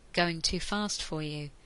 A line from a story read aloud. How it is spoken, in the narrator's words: he asked softly